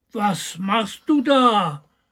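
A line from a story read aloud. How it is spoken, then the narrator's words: Calling upward. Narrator (German): rief der kleine Hebelmann hinauf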